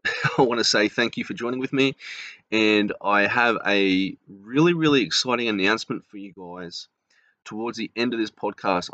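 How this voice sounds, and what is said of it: Australian accent. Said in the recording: “from Australia, obviously, because of my accent.”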